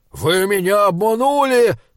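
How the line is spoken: Angry strained shout. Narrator (Russian): крикнул он, и физиономия его была красна от натуги и гнева

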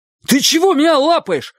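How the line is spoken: Terrified shout. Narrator (Russian): в ужасе крикнул Чик

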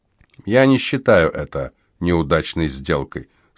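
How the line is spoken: Calm boy's reply. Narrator (Russian): спокойно ответил мальчик-солдат

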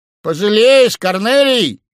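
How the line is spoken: Shout. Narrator (Russian): крикнул Грубин другу

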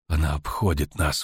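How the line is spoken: Breathed out. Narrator (Russian): выдохнул Буряс Мун

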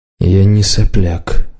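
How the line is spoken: Gloomy. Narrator (Russian): мрачно сказал Варан

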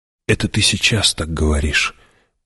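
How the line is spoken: Whispered reply. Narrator (Russian): прошептала в ответ Чани

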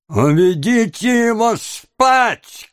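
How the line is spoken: Shout. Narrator (Russian): крикнул Феджин

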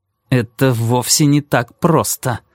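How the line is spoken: Through gritted teeth. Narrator (Russian): ответил Кармоди сквозь зубы

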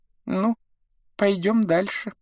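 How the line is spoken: Squeaky thin voice. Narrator (Russian): пропищал он тонким голосом

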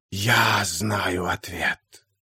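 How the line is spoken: Hissing whisper from behind. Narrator (Russian): послышался сзади свистящий шепот

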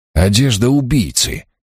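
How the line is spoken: Lively exclamation. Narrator (Russian): оживленно воскликнул я

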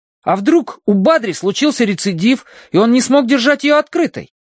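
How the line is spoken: Exclaiming. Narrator (Russian): воскликнул Колин

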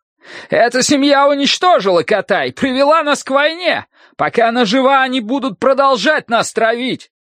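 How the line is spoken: Hidden archer shouting. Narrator (Russian): Спрятанный среди других солдат лучник, крикнул

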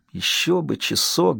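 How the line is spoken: Mumbling. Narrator (Russian): бормотал он

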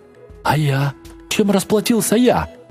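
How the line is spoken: Squealed. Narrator (Russian): взвизгнул щупач

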